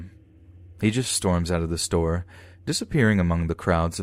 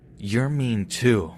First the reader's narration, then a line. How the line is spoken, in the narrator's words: he hisses